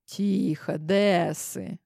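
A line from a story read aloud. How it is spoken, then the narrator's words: Soft. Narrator (Russian): уже мягко проговорила я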